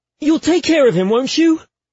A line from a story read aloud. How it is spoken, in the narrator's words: I blurted out